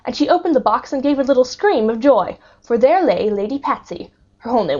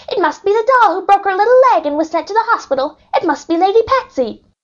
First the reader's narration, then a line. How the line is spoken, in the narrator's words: she cried